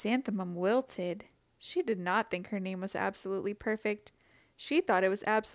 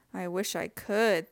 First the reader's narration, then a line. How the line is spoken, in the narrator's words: thought Chrysanthemum miserably